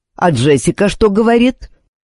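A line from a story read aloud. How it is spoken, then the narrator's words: Young man's quick retort. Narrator (Russian): Нашелся парень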